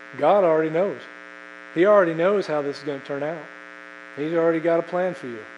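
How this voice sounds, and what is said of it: Put-on American Southern accent. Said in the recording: “he spoke with a southern accent because he's from the south”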